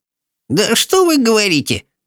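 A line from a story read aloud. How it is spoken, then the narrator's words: Grumbling mutter. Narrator (Russian): пробурчала Софи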